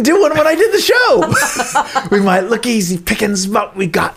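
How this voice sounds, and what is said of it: Usual voice. Nothing is said of it.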